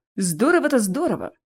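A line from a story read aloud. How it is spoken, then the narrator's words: Muttering. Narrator (Russian): пробурчал Кельмир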